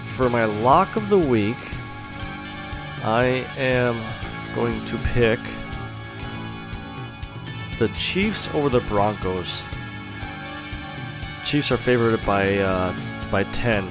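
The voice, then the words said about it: Slightly congested voice. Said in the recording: “I have a little cold.”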